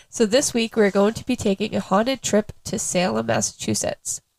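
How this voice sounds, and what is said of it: Sick, slightly odd-sounding voice. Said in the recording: “I sound a little weird. I am super sick”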